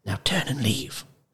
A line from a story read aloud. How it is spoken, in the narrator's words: Roscuro whispered